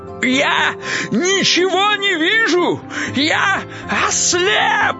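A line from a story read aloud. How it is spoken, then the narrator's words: Panicked shout. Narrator (Russian): закричал Кощей Бессмертный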